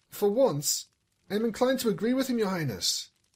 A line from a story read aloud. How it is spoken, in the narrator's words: Anvil piped up